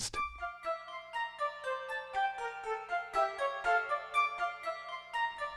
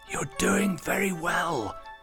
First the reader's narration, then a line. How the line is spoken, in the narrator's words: Anna hissed up to him encouragingly